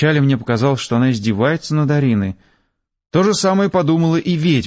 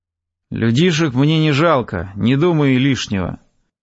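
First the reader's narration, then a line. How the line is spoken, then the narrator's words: Words through teeth. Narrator (Russian): процедила ведьма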